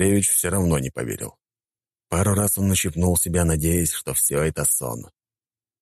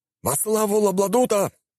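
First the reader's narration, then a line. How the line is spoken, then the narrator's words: Servants shouting together. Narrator (Russian): прокричали остальные слуги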